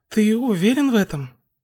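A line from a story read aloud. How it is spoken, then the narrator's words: Uncertain question. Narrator (Russian): Хакагура неуверенно спросила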